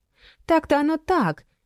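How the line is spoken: Sigh. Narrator (Russian): вздохнула Майя

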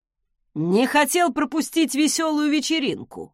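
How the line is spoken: Snorting scoff. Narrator (Russian): хмыкнул

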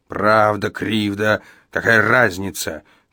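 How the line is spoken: Growing irritated growl. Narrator (Russian): прорычал Иеремия, раздражаясь все больше

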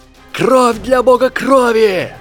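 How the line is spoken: Screaming. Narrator (Russian): завопил Невилл

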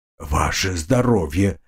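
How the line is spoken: Impressed mutter. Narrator (Russian): впечатленный увиденным пробормотал

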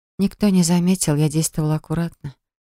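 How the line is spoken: Quiet. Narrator (Russian): тихо проговорила я

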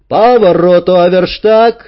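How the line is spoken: Yelled from above. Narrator (Russian): завопила сверху Танюшка

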